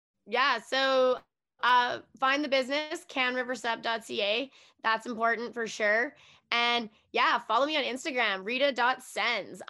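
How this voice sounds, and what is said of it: Raw, hoarse voice. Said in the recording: “my voice is all raw”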